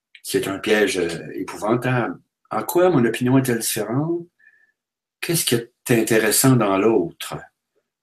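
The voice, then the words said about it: Quebec French accent. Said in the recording (French): “Avec mon accent ... vous venez du Québec”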